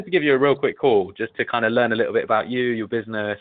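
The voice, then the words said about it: British accent. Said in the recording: “Don't know if you can tell from the accent why I'm British.”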